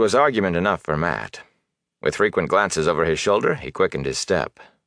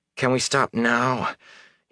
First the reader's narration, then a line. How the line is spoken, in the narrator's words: he panted